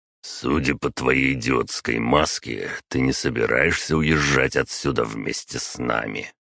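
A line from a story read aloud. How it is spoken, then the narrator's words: Grumbling. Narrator (Russian): проворчал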